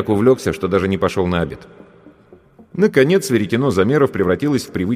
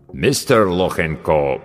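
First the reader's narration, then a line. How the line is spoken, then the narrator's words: Deep voice, mangled name. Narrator (Russian): пробасил авербанкащик, как обычно безбожно коверкая фамилию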